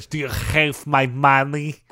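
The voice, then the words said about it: Exaggerated, over-the-top movie accent impression. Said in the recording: “It's the most ridiculous Malkovich accent he's ever done, which is saying something... He went big.”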